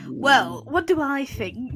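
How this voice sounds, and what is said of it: Put-on posh accent. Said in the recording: “why am I trying to talk posh? I'm not a posh man”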